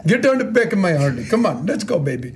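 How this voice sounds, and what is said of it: Put-on accent in a playful voice. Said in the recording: “Wrong accent.”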